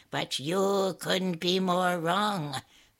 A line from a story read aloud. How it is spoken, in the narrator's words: the merchant cackled